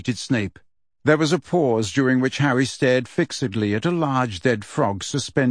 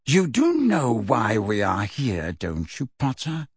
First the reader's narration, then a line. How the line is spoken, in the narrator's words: said Snape in a low, dangerous voice